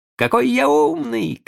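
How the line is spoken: Joyful shout. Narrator (Russian): кричал он радостно

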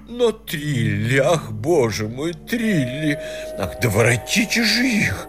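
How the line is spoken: Nervous lady's moan. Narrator (Russian): застонала нервная дама

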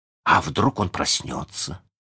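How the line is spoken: Suddenly hoarse question. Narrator (Russian): спросил Джон внезапно севшим голосом

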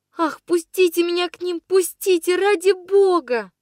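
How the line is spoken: Sobbing plea. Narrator (Russian): Рыдала я

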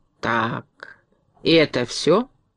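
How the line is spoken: Calm question. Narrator (Russian): спокойно спросил дровосек

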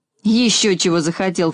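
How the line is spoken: Snorting. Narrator (Russian): фыркнул стриженный

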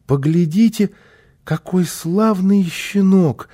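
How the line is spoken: Child's joyful exclamation. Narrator (Russian): радостно воскликнул малыш

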